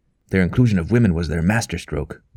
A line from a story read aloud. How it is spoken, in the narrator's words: growled Father Blackmore